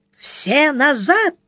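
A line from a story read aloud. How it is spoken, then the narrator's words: Ear-splitting shriek. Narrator (Russian): завопила она так звонко, что у Сварога заложило уши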